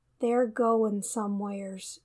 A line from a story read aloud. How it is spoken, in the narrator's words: she said